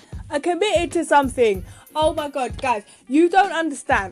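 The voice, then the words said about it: Excited shouting. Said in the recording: “I'm sorry for shouting.”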